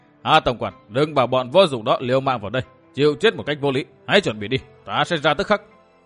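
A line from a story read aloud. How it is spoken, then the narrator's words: Booming, sinister laughter. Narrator (Vietnamese): một tràng cười ghê rợn vang ra, Độc Cô Thanh Tùng cất tiếng oang oang thốt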